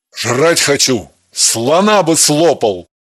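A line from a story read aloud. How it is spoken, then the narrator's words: Playful growl. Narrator (Russian): Шутливо прорычал он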